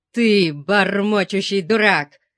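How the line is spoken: Growling. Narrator (Russian): зарычал Дианус

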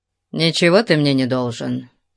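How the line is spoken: Gloomy reply. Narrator (Russian): мрачно ответил

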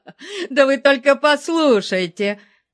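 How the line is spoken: Fat man roaring with laughter. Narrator (Russian): проревел сквозь смех толстяк

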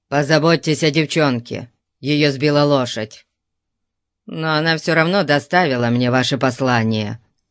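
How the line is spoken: Grumbling. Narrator (Russian): проворчал

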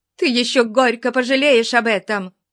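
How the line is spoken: Loud laughter. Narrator (Russian): Расхохотавшись

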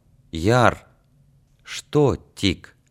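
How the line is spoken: Quiet. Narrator (Russian): тихо сказал

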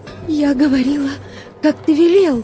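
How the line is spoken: Breathless pleading. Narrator (Russian): Задыхаясь, взмолилась она

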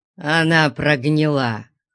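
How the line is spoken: Growling. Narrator (Russian): прорычал Нестор

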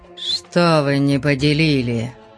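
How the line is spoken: Gloomy question. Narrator (Russian): мрачно поинтересовался Стром

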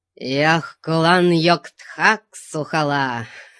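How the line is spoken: Wild shrill humanlike cackle. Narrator (Russian): С диким пронзительным хохотом, который прозвучал пугающе по-человечески, попугай

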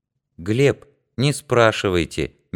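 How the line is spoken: Gentle. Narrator (Russian): мягко сказала Данка

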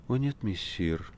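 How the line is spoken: Barely audible reply. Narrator (Russian): ответила Маргарита, но чуть слышно

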